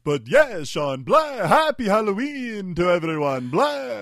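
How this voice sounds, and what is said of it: Vampire Dracula character voice. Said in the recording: “his vampire stroke Dracula impression ... the vampire voice”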